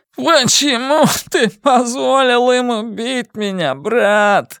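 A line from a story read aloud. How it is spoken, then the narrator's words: Sob. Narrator (Russian): всхлипнул Генри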